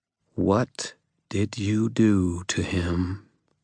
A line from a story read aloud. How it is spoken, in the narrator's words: Lara asked, her voice cold and measured